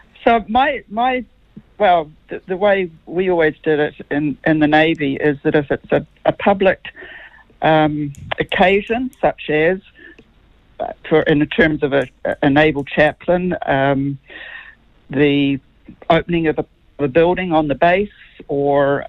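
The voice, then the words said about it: American-sounding accent. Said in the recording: “I'm a New Zealand-born Kiwi ... I'm told that I have an American accent now”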